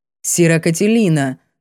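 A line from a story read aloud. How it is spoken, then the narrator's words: Dry, curt. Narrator (Russian): сухо начал горбоносый Ниор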